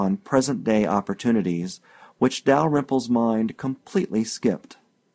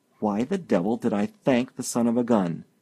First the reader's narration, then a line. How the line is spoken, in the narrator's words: He muttered